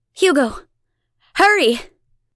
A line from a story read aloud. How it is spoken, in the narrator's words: Abigail shouts over her shoulder